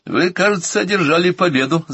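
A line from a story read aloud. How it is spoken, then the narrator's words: Laughing. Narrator (Russian): засмеялся я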